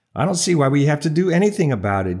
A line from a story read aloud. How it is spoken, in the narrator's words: Jim replied